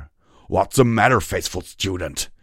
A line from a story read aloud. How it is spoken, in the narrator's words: roared